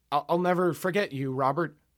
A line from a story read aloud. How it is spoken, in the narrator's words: I stammered, eyes moistening ever so slightly